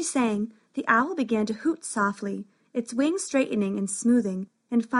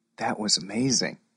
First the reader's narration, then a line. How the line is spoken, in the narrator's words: whispered Max